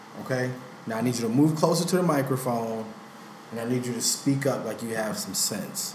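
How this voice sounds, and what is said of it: Mock stern police officer voice. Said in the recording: “You sound like a corrupt police officer.”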